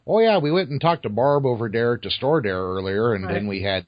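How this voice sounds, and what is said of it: Imitated Wisconsin accent. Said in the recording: “that's a Wisconsin accent”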